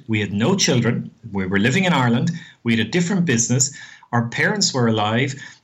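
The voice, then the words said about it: Irish accent. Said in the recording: “as you can gather from the accent, we're Irish living in Australia.”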